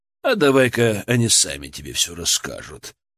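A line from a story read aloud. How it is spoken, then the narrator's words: Sighing. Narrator (Russian): вздохнул Витольд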